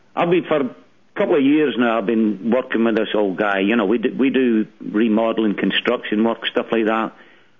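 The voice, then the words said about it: Speaks with a brogue. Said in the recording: “I love the brogue”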